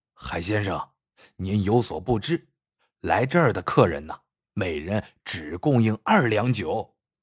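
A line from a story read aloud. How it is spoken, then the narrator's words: Laughing. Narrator (Chinese): 孙镇长 笑道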